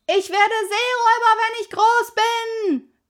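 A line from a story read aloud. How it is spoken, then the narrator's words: Called out. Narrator (German): rief Pippi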